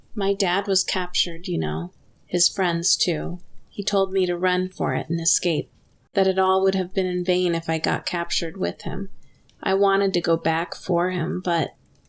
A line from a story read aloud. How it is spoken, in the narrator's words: Red said softly